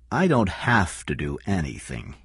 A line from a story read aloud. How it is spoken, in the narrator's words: King said slowly